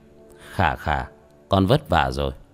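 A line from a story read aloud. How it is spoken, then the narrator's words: Smiling. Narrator (Vietnamese): Tiểu Thất mỉm cười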